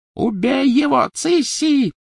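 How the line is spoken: Screaming. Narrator (Russian): завопила Беллатриса

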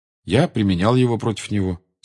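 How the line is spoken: Calm reply. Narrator (Russian): спокойно ответил Гарри

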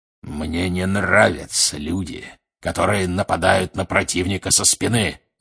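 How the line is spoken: Growling. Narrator (Russian): рычал Грюм

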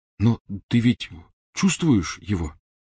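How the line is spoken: Quiet question. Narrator (Russian): негромко спросил Рон

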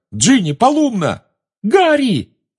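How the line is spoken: Shriek. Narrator (Russian): взвизгнула Гермиона

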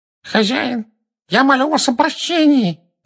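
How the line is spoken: Nasal kneeling plea. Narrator (Russian): прогнусавил человек, стоящий на коленях

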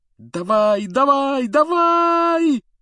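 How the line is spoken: Desperate yelling. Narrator (Russian): отчаянно вопил Гарри

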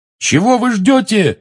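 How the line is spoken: Yelling. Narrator (Russian): заорал он

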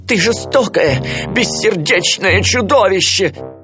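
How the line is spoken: Shouting. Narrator (Russian): закричал отец Так

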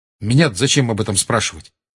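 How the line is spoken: Sharp reply. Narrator (Russian): резко ответил Гарри

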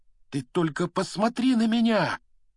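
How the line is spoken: Exclaimed. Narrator (Russian): воскликнул он

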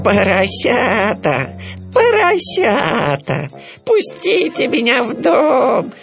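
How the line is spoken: Bleating voice. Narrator (Russian): сказал он блеющим голосом

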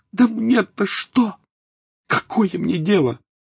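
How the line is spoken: Exclaimed. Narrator (Russian): воскликнула Тонкс

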